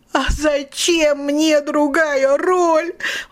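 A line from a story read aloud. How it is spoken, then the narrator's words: Yelling. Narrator (Russian): вопила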